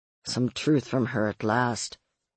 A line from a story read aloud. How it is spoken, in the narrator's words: someone muttered nearby